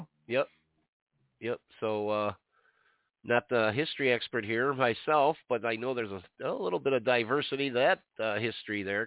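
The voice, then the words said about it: Congested, stuffy-sounding voice. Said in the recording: “this is not a Cleveland accent. This is a ton of goo in my head that's rattling around. So if I sound a bit odd”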